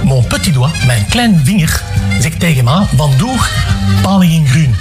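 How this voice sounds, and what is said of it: Speaks in a regional dialect. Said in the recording (Dutch): “je dialect”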